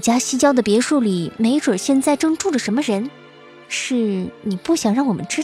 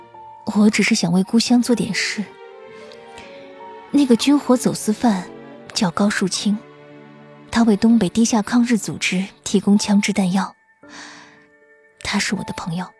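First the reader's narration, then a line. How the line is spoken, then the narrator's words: Soft sigh. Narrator (Chinese): 沈兰轻轻叹了口气，说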